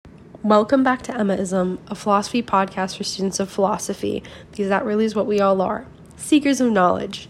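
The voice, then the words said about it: Sick, under-the-weather voice. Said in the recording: “I've been feeling a little bit under the weather for the past few days. You probably can tell by my voice.”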